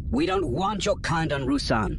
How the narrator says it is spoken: the younger man snapped

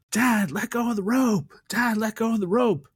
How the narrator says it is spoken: his son Ben's yelling out to him

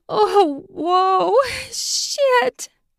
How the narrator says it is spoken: she gasped

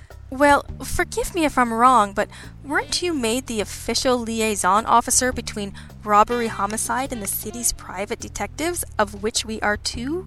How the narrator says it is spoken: asked, smiling sweetly

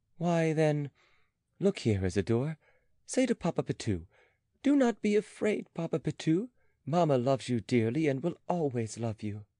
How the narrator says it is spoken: The child repeated this in his pretty voice

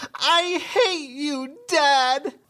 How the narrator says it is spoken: freaks out, crying, screams

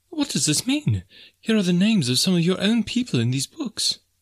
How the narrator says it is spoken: she cried

